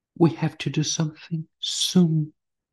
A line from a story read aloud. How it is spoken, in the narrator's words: I whispered in a tone of urgency